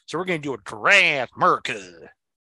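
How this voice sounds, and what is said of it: Put-on Southern American accent. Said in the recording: “I was talking a Southern accent before. Now I got to talk a Southern accent”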